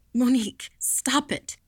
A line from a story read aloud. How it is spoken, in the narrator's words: gasped